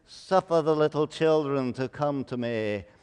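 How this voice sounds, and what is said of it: Wimpy Shakespearean-style accent. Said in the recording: “He's sort of wimpy, and he spoke in a Shakespearean accent.”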